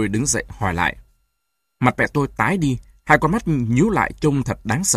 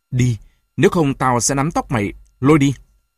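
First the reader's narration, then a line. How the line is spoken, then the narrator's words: Speaking. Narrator (Vietnamese): nói như xen gì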